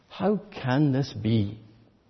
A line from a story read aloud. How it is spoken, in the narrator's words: Nicodemus asked